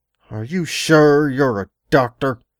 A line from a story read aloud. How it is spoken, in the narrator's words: I growled between my teeth